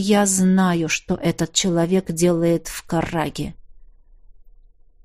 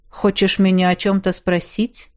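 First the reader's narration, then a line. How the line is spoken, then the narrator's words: Cold question. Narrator (Russian): холодно поинтересовался Эрик Эльсар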